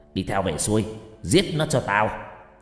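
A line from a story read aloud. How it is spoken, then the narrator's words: Shouted. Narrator (Vietnamese): Lão quát lên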